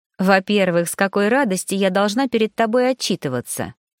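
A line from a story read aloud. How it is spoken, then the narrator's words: Forced calm, suppressed emotion. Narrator (Russian): Начала я, стараясь говорить спокойно, но внутри бушевал ураган эмоций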